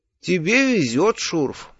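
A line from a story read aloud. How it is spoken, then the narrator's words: Tired, smiling. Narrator (Russian): устало улыбнулся я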